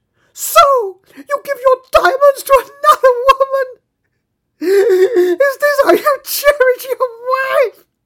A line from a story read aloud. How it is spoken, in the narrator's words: she cried